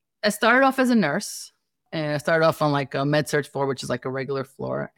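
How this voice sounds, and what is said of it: Staten Island New York accent. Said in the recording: “my accent. Like I'm Staten Island. You know, this is the Brooklyn, Staten Island, New York City kind of accent.”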